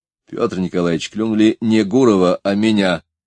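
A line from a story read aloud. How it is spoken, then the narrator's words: Plain. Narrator (Russian): сказал Станислав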